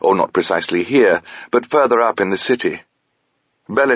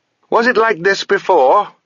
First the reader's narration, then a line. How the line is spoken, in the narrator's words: she shouted at Touchstone